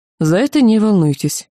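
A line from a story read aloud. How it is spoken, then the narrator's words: Calm. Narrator (Russian): спокойно заявил Ланс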